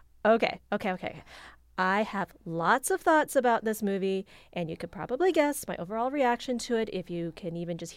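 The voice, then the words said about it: Excited, enthusiastic voice. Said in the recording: “hear the excitement in my voice”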